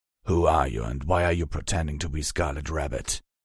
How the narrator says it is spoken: He growled

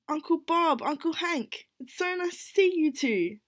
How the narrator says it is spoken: Mish yelled enthusiastically

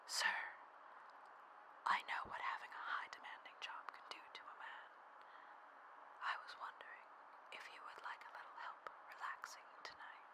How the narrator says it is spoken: I whisper in his ear

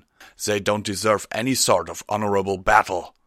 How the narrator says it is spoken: growled

